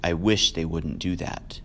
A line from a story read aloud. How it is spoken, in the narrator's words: he said quietly, almost to himself